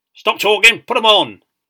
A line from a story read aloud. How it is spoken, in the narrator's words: roared the storeman